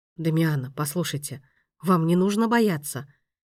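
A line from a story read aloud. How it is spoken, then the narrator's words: Soft, soothing. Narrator (Russian): мягко произнес маэстро, пытаясь, видимо, ее успокоить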